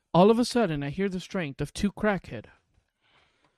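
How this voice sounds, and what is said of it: Usual voice. Nothing is said of it.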